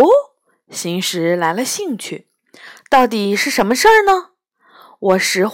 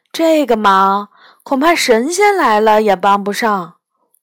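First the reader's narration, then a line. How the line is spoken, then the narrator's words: Sighing. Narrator (Chinese): 我叹了口气说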